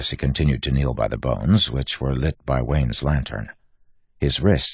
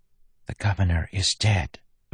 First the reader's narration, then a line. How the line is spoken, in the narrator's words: Maracy whispered